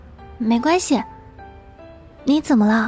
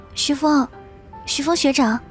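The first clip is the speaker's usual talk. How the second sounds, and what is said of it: Soft, quiet calling voice. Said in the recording (Chinese): “小声的叫他”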